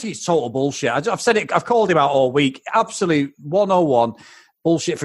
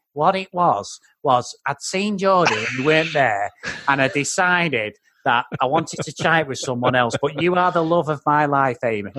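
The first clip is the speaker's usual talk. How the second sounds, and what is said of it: Imitates another person's voice. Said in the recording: “I've been improving on that impression”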